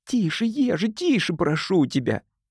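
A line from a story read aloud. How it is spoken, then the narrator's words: Whispered plea. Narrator (Russian): шепотом взмолился Тим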